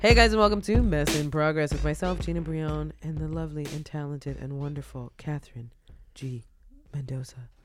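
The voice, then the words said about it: Smooth jazz radio announcer voice. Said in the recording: “That was my jazz radio voice. ... It was pretty good, right?”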